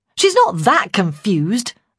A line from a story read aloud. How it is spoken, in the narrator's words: I snapped